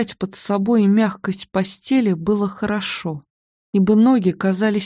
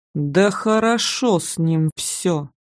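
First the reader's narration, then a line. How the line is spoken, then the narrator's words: Through clenched teeth. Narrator (Russian): процедил мой надзиратель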